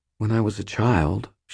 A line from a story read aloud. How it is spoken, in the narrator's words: she said, still speaking very quietly